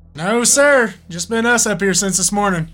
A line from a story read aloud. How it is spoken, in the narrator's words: Tyler looked uneasily at Chris and answered